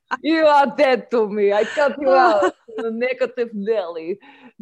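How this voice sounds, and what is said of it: Bad fake Russian accent. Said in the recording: “that's a horrible cod Russian accent”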